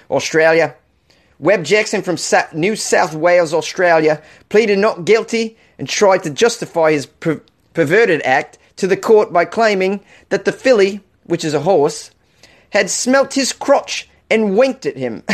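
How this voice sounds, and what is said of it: Weak put-on Australian accent. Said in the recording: “How was that for an Australian accent? Let me do the rest of the story with an Australian accent ... This is not a good Australian accent.”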